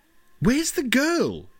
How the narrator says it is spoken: she shouted above the noise of helicopters and police sirens

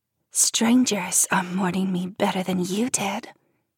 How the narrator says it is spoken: Jen hisses in my ear

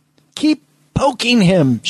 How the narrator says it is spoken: Schmidt yelled

